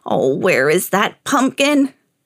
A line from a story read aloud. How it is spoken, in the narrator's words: croaked the old man